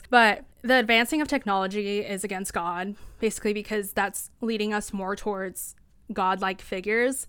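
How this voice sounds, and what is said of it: Hoarse, strained voice. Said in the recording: “I'm literally losing my voice because I'm so passionate about this.”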